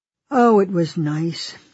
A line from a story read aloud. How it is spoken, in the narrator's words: he said sadly